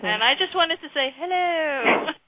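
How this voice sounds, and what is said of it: Put-on English accent. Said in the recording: “talk in an English accent ... do the show in an English accent”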